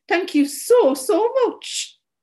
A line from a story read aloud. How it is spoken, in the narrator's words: I said, melting away into sobs